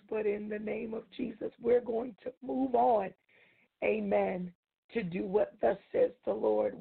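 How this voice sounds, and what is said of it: Slightly hoarse voice. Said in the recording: “my voice is just a little hoarse”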